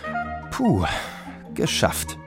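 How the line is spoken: Relieved mutter. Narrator (German): murmelte Tetje erleichtert

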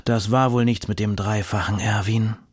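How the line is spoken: Grandfather sighing. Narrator (German): sagt der Großvater mit einem Seufzer

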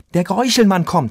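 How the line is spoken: Excited. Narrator (German): sagte Leon aufgeregt

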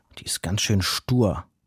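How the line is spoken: Growled. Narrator (German): knurrte

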